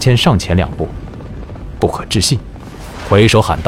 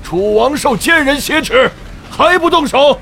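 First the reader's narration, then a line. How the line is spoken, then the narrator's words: Sudden loud shout. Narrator (Chinese): 李建恒退无可退，不禁大喊一声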